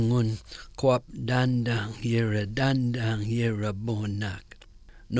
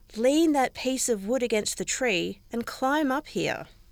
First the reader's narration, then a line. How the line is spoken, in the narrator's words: called out